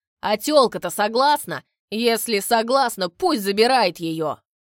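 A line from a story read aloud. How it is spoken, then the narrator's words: Shouted. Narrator (Russian): кто-то крикнул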